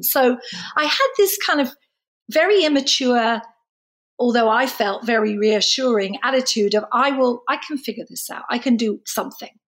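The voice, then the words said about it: Noticeable foreign accent. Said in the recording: “you could sell a lot of clothing with that accent ... I've got this accent”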